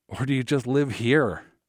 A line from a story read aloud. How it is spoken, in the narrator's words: laughed